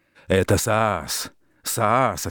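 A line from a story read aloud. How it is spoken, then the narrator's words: Angry old woman. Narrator (Russian): отвечала старуха сердито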